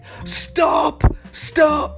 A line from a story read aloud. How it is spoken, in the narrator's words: shouted Cruella